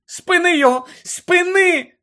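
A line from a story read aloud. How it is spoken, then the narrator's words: Shout. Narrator (Ukrainian): закричала Герміона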